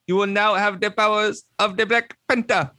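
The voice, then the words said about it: Imitates another person's accent. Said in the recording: “with the accent that I always make fun of... His accent was terrible... It was terrible... that accent”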